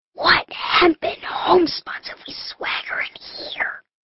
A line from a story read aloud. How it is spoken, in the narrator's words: whispered